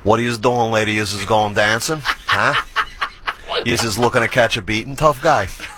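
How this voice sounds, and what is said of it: Exaggerated New York accent. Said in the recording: “I worked very hard to lose my New York accent, but would you love to hear it?”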